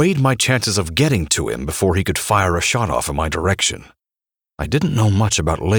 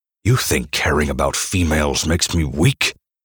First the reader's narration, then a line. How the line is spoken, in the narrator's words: I snarled at him